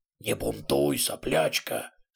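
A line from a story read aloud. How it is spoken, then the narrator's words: Stern. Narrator (Russian): строго сказала левая голова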